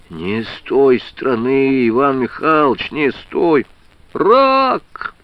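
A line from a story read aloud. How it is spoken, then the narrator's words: Tearful sobbing. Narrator (Russian): Слезно зарыдал Андрюшка Лузгин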